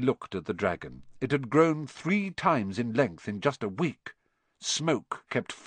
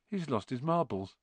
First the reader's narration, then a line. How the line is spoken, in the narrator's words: Ron muttered in Harry's ear